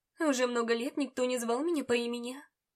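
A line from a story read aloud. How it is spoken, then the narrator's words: Plain. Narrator (Russian): ответила она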